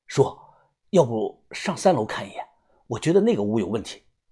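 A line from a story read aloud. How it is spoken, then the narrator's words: Quiet voice. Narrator (Chinese): 我小声的说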